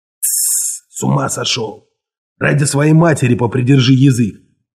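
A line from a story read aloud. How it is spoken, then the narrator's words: Whisper. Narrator (Russian): зашептал ему Луис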